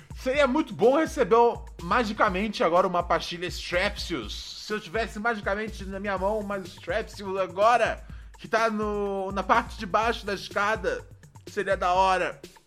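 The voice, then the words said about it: Hoarse voice with sore throat. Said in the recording (Portuguese): “me fudeu a garganta aquela imitação do hoje antes de começar o programa.”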